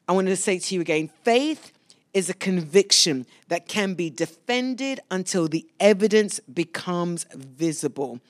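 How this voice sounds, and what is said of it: London English accent. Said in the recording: “You hear the accent, those of you that are brand new, that I was born in London”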